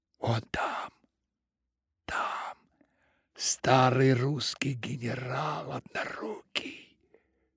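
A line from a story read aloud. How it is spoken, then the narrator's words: Secretive whisper. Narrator (Russian): шептал он, словно поверял какую-то волшебную тайну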